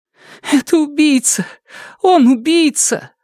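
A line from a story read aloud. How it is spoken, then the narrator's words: Sobbing. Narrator (Russian): всхлипнула она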